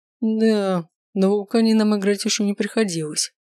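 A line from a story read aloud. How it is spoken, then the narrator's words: Gloomy muttering. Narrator (Russian): мрачно пробормотал Маркус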